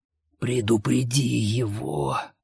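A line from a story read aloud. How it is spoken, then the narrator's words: Dying old man's rasp. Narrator (Russian): прохрипел умирающий старик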